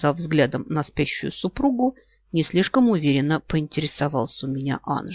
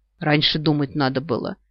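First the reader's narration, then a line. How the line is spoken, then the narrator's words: Grumble. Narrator (Russian): проворчал нимф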